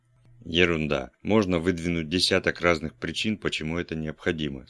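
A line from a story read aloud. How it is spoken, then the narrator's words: Plain. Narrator (Russian): сказал я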